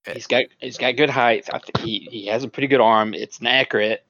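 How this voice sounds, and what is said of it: Slightly slurred speech. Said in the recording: “I'm slurring my speech a little.”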